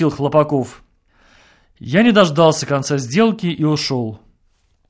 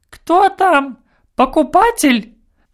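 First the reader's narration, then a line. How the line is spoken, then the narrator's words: Squeaky female voice. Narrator (Russian): пропищал женский голос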